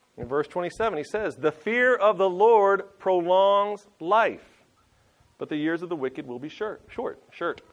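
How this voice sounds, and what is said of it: Southern American twang. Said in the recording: “There's the southern twang coming out.”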